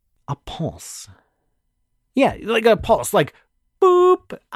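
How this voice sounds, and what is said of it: Vocal 'boop' imitating a wave pulse. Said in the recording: “my best impersonation of a pulse”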